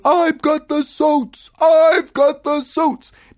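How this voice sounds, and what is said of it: Screamed line. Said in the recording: “She's screaming,”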